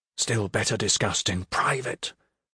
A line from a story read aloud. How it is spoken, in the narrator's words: Sartori whispered